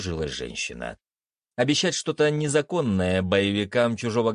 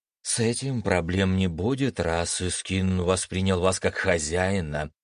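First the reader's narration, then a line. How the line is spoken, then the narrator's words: Relieved sigh. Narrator (Russian): облегченно вздохнула Соня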